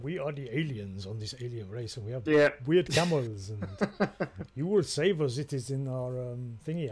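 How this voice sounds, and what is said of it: Put-on exaggerated foreign accent. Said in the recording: “I'm sorry if I'm doing a semi-racist accent there. ... That's how they spoke.”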